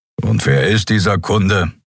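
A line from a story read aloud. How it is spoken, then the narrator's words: Grumbling. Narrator (German): brummte Kero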